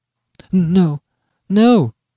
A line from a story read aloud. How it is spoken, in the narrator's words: she faltered, shuddering